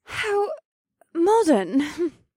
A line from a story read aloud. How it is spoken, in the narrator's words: Alyssa said in an overly polite voice